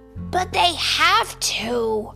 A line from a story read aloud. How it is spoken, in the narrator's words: cried Franklin